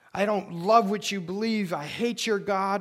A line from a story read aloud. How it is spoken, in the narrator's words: someone who comes to you and shouts